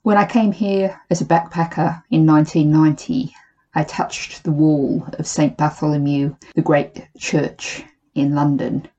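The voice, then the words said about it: Australian accent. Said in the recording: “from Australia, if you're trying to pick out where the accent comes from”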